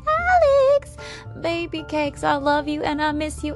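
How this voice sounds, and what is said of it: Put-on country accent. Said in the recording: “I don't know why I gave her a country accent there.”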